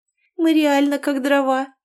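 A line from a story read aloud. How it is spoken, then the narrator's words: Giggled. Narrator (Russian): хихикнула Инна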